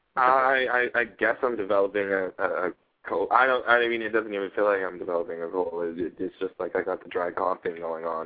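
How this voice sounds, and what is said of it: Scratchy voice. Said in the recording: “pardon my voice. It's like it's got the scratchy thing going on”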